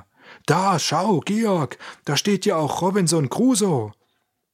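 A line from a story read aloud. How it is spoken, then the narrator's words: Sudden call. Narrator (German): Auf einmal rief er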